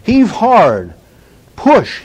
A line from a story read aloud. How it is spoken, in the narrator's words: The corporal cried out with a third attempt